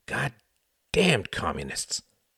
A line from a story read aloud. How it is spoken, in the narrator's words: muttered the cab driver